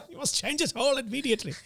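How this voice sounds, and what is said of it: Put-on German accent. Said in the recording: “She'd do it with a German accent.”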